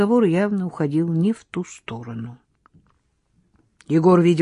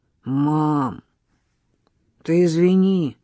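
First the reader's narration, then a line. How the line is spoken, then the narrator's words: Forced out with effort. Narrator (Russian): выдавил он через силу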